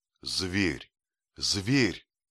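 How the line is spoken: Anguished exclamation. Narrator (Russian): воскликнул я, ломая руки

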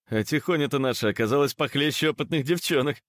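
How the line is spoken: Laughing. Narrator (Russian): засмеялся Антон Сорокин

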